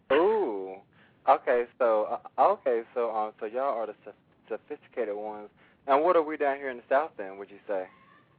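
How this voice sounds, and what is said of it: Southern American accent. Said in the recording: “You're adorable with your little accent”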